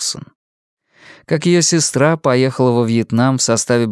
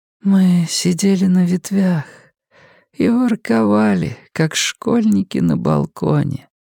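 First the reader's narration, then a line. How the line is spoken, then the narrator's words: Sleepy. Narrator (Russian): сонно говорила она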